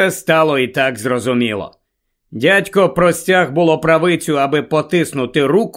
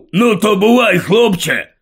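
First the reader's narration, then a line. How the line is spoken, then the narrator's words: Grumbled. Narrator (Ukrainian): буркнув Гаррі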